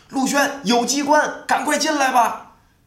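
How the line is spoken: Shouting from inside. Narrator (Chinese): 王娇从里面喊了一句

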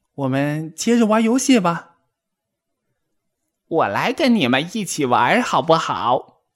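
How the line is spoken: Shrill voice from behind. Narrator (Chinese): 一个尖声尖气的声音从身后传来

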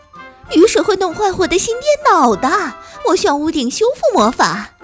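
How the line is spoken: Shouting. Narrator (Chinese): 温妮喊道

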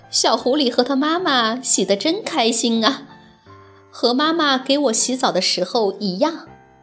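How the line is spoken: Young bear laughing. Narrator (Chinese): 小熊笑着说

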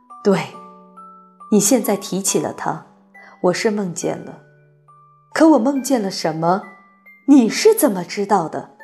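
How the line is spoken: Murmuring. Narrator (Chinese): 女王喃喃说

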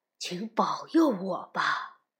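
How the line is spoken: Reverent low murmur. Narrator (Chinese): 当他们经过传说中精灵出没的地方时…低声说

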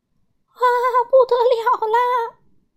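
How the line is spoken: Shrieking. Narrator (Chinese): 颤抖先生尖叫着

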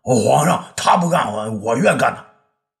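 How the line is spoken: Clamoring, just awakened. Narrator (Chinese): 栾大子这时候突然醒了过来呀……嚷嚷道

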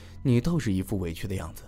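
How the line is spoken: Sighing. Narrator (Chinese): 我摇头叹道

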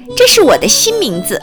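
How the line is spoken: Cheerful, grinning. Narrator (Chinese): 短尾巴兔笑嘻嘻地说

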